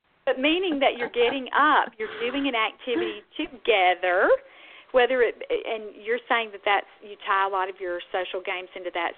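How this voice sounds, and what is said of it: Deep Southern US accent. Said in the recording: “I guess this is my deep southern dialect.”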